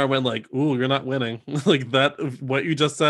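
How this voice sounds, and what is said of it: Usual voice. Nothing is said of it.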